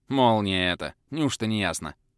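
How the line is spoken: Irritated snap after shock. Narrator (Russian): раздраженно бросила брюнетка, очнувшаяся от шока

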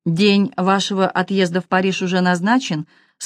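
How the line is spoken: Plain. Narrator (Russian): спросила мадам Долерей

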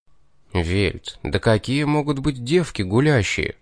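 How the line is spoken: Sigh. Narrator (Russian): Вздохнул

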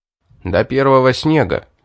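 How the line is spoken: Stern reply. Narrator (Russian): ответил магистр и строго сказал

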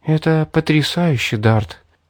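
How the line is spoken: Breathless girl. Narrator (Russian): Выдохнула девушка, приходя в себя

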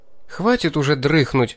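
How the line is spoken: Fiancée indignant. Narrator (Russian): продолжила возмущенно моя невеста

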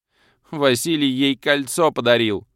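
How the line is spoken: Sobbing woman. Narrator (Russian): Всхлипнула и, наконец, подала голос брюнетка

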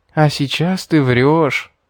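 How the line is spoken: Drawling with a smile. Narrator (Russian): с улыбкой протянула Кара

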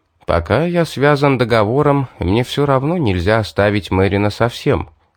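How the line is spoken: Plain. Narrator (Russian): ответил

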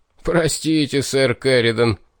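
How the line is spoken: After laughing. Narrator (Russian): отсмеявшись, сказал Астарх

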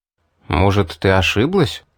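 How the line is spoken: Confused question. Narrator (Russian): растерянно спросил я

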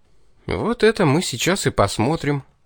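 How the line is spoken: Skeptical snort. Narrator (Russian): хмыкнул я

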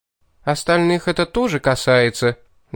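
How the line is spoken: Sharp, curt remark. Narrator (Russian): довольно резко бросила приблизившаяся к нам леди

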